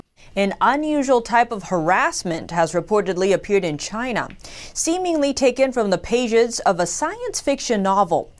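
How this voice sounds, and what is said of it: Foreign-sounding accent in English. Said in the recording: “I love her accent. It's so close, yet so far east. ... it's wrong in all the right places.”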